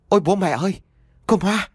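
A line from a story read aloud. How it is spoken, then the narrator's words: Stammering, then loud shout. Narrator (Vietnamese): Anh lắp bắp mấy tiếng rồi liền hét lớn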